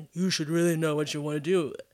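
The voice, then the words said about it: Old man character voice. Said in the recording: “I just hear some old man going ... that was my old man voice ... It was good. I think it was accurate.”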